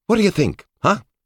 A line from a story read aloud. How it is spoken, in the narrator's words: he asked cheerfully, and, of course, loudly